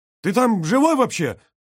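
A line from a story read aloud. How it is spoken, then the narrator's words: Shouted. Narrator (Russian): прокричал Брагинский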